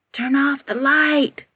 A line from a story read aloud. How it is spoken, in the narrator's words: whispered